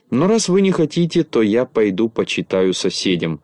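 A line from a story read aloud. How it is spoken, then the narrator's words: Plain. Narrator (Russian): сказал Незнайка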